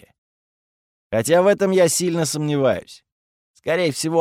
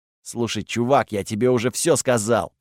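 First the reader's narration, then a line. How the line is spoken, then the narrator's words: Grumbling. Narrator (Russian): проворчал Готфред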